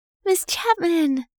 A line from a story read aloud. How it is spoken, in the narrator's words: Molly exclaimed